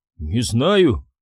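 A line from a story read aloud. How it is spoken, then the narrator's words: Mumbling. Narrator (Russian): промямлил Полинг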